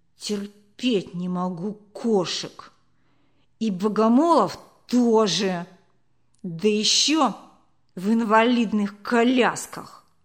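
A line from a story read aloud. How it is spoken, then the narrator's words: Slow reply through teeth. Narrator (Russian): сплёвывая сквозь редкие зубы, Толик медленно процедил в ответ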